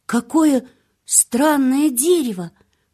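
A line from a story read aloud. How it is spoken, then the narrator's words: Loud whisper. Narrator (Russian): громко прошептал он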